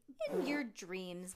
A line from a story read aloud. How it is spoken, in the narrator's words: Dad said, laughing